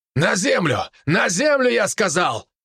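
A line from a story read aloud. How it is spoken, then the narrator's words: Soldier shouting. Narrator (Russian): Тут же закричал первый из бойцов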